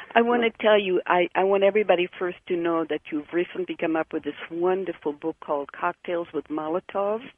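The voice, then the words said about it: Hebrew accent in English. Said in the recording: “When I speak English and I'm taped, I hear my Hebrew accent, even though I've been here for many, many years.”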